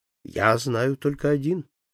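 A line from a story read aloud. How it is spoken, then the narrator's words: Calm. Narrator (Russian): ответил спокойно Фогг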